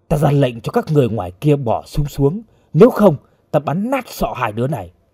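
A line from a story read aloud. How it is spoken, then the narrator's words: Loud shout. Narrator (Vietnamese): Chơ Rớt quát vang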